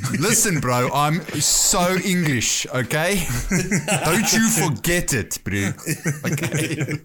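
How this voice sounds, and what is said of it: Put-on English accent. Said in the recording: “we can tell by your convincing accent”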